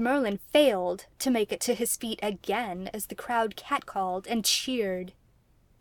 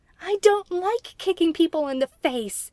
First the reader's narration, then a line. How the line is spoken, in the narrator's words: Merlin yelled in reply